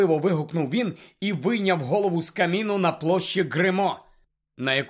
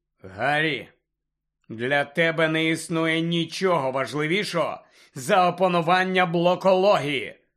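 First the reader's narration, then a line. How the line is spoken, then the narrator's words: Stern. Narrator (Ukrainian): суворо сказав Люпен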